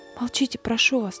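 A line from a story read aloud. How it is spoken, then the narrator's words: Quiet nun's voice. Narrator (Russian): тихо сказала монахиня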